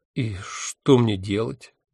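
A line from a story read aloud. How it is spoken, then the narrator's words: Unhappy question. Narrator (Russian): несчастным голосом спросил я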